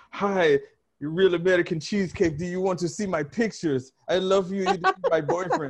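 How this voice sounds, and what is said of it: Bad put-on Russian accent. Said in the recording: “that terrible Russian accent”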